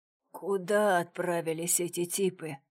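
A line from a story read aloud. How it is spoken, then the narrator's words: Hoarse wheeze. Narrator (Russian): прохрипел Брюлей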